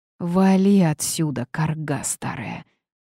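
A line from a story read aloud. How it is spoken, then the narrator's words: Hissing girl. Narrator (Russian): прошипела девушка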